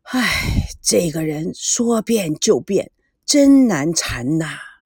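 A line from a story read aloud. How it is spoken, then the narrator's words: Sighing. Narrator (Chinese): 吴金美 叹气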